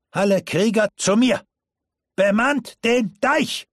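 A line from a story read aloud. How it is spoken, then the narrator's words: Thundering shout. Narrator (German): rief mit donnernder Stimme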